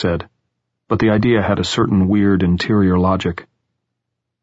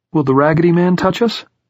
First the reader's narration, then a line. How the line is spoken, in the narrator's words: Jordan asked, his voice rising a little